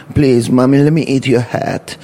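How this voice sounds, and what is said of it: Odd put-on accent, character voice. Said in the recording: “I don't know what accent you're doing”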